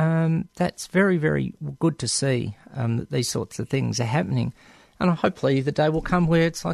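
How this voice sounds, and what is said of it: Usual voice. Nothing is said of it.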